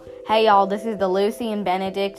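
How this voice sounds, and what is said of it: Attempted country accent, not quite right. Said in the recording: “I don't think I'm doing my right country accent.”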